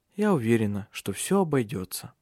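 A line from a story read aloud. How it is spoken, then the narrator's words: Calm. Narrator (Russian): спокойно проговорила Силия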